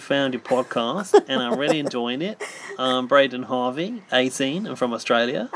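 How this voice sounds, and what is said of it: Put-on Australian accent. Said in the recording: “Can you do the Australian accent? ... doing my own voice now.”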